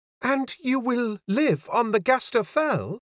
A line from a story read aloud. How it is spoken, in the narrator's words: cried